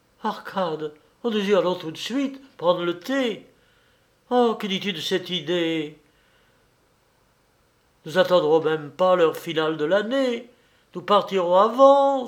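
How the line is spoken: Emotional exclamation. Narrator (French): s'écria Vasya, sous l'empire d'une émotion qu'il ne pouvait dissimuler

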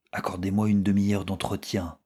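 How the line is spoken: Low voice. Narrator (French): répondit Robert à voix basse

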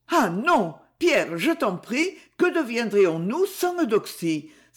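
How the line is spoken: Alarmed exclamation. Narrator (French): s'écria Lucette très alarmée

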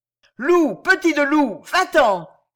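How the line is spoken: Shouted. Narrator (French): cria le prêtre

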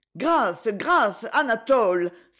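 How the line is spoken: Exclaimed. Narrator (French): s'écria Paul

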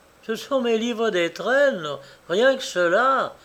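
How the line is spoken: Cheerful. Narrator (French): disait-elle gaiement

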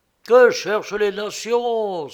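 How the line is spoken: Exclaimed. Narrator (French): s'écriait-il

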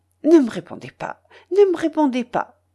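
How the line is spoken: Quick, brisk addition. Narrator (French): ajouta-t-elle vivement

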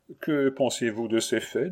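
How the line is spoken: Plain. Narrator (French): demanda M

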